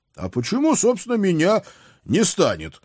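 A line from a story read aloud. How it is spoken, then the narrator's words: Loud, panicked question. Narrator (Russian): громко спросил я, с каждым словом поражаясь собственным паническим настроением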